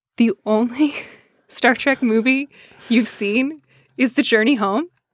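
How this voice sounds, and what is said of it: Incredulous tone. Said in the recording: “The like incredulity in my voice”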